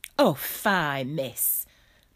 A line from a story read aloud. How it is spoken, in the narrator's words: said Bessie